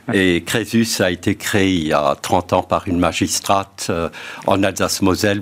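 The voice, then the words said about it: Slight Alsatian French accent. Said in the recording (French): “Vous l'entendez sans doute à mon accent... cette petite pointe... On me traite parfois de Bismarck”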